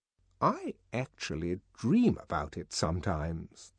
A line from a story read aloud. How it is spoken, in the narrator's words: the director went on in a low voice